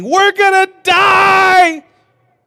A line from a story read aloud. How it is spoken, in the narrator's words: 12 fishermen grabbing his shoulders, screaming